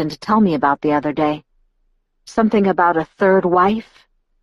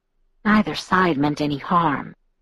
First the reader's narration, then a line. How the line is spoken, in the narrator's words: Edward whispered, peacemaking now